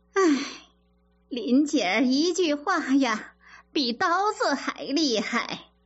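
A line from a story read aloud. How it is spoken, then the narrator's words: Torn between laughing and crying. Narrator (Chinese): 李妈妈啼笑皆非地说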